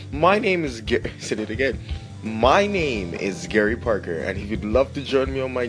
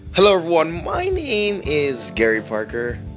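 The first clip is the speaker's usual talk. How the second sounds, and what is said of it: Voice cracks mid-sentence. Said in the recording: “My voice cracked.”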